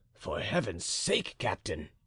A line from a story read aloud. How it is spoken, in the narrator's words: said Monsieur de Gesvres in a low voice to the musketeer